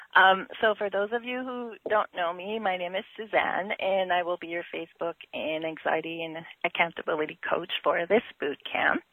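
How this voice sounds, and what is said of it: Rough, hoarse voice. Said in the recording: “apologize for my voice. I have a cold, so it's a little raunchy”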